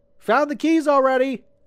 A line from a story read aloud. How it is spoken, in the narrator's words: he laughed